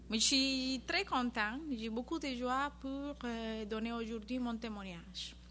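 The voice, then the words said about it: Slight Spanish accent. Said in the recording (French): “Elle a un petit accent espagnol”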